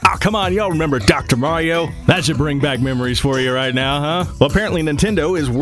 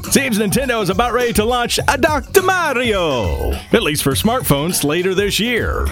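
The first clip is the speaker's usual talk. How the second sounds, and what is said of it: Bad Mario-style accent. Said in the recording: “a very bad accent like this is when I'm talking about Mario”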